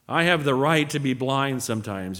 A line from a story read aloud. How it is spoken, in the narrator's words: he said